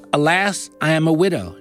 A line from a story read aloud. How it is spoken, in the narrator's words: she replied